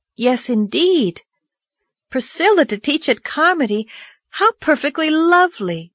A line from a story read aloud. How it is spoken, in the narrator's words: exclaimed Anne, her gray eyes lighting up